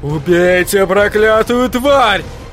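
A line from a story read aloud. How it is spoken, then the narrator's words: Yelling. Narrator (Russian): вопил он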